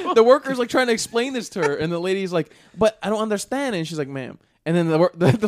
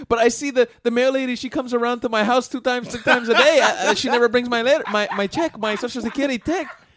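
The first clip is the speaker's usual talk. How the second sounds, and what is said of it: Put-on Hispanic accent. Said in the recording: “I can do this accent. I'm Hispanic”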